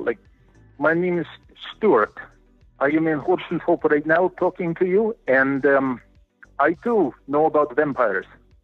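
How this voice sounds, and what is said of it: Attempted Romanian accent, sounding Amish. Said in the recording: “learn like the Romanian accent ... sounded more you, like you Amish ... it's an Amish accent ... sliding towards like Chekhov from Star Trek”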